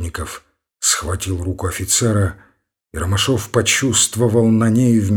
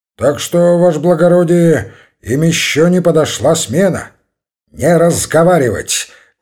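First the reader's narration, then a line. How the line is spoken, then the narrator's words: Shout. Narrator (Russian): крикнул на него Ромашов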